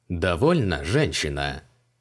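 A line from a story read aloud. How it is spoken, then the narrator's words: Mocking mutter. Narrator (Russian): буркнул Креол, насмешливо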